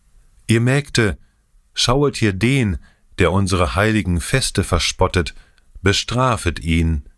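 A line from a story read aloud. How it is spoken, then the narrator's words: Loud calling down valley. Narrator (German): rief mit lauter Stimme ins Tal hinab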